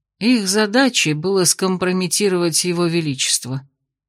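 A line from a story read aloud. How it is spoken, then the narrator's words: Quiet, tired. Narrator (Russian): тихо и устало ответил мастер Викт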